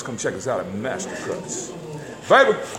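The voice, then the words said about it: Radio promo announcer voice. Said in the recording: “should be doing radio with that voice like that... He got radio voice... He got radio and promo voice all day.”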